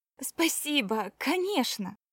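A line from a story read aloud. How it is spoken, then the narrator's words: Exclaimed. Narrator (Russian): воскликнула Кора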